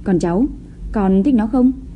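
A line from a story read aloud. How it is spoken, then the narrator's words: Forced smile. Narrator (Vietnamese): Chu Thông Đường cố mỉm cười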